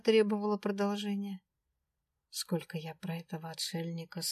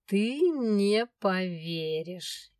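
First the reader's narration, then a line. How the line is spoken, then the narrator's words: Snide drawl. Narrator (Russian): ехидно протянул дракон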